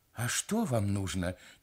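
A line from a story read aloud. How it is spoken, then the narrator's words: Quiet question. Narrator (Russian): тихо спросил папа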